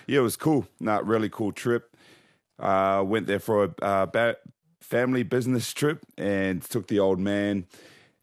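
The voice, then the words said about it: Croaky voice. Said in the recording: “Your voice was a bit croaky.”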